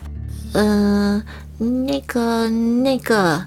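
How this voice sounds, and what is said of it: Very quiet, timid small voice. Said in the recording (Chinese): “小小用很小声的声音说”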